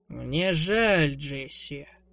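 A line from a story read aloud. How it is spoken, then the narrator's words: Deep, even drawl. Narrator (Russian): нараспев протянул глубоким, ровным голосом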